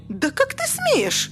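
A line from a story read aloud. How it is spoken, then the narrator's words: Piercing shriek. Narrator (Russian): пронзительно взвизгнула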